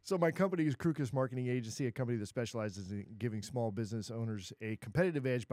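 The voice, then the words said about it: Smooth radio announcer voice. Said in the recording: “You got that radio voice.”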